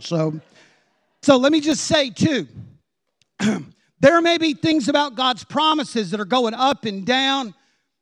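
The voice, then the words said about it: Hoarse, strained preaching voice. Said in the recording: “I'm going hoarse already on point one.”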